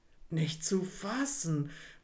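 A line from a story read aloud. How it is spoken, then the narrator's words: Murmured. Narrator (German): murmelte Alice Wendlaken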